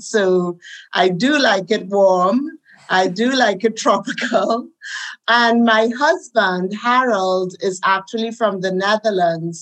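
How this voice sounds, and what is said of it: Caribbean accent. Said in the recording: “as you can hear, I have a Caribbean accent.”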